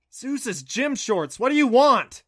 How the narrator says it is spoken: Sitting up angrily

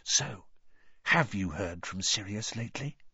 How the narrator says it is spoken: he said very quietly

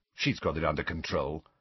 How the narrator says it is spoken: Ron muttered to Harry

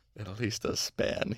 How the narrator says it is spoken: he muttered

